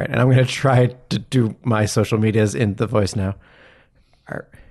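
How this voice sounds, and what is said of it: Usual voice. Nothing is said of it.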